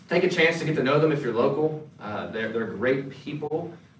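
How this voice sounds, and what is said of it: North Carolina accent. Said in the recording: “They sound a little bit more like me. Some of you comment on my accent sometimes, so they are from North Carolina”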